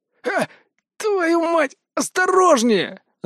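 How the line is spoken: Pained yell. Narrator (Russian): завопил садист, дергая переломанными конечностями

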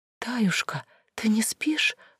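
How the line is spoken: Whispering small child. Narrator (Russian): шепотом спросил малыш

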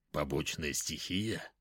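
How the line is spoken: Muttering. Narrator (Russian): пробормотал он

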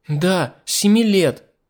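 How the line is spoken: Fashionista exclaiming. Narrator (Russian): воскликнула модница

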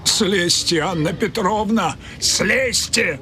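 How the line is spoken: Pleading shout. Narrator (Russian): умоляюще кричал человек с бледным лицом

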